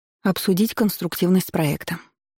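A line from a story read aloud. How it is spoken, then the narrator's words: Calm. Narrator (Russian): спокойно произнесла Тамила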